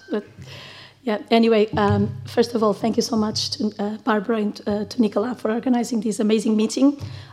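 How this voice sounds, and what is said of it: Sick-sounding voice from a cold. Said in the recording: “sorry for my voice. It's not COVID ... I got this cold”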